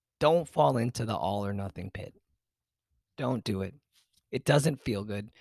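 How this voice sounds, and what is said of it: Hoarse, fading voice. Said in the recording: “losing my voice”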